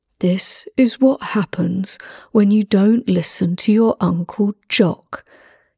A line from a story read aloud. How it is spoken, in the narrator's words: he said